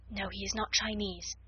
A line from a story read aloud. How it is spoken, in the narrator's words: Sarah whispered back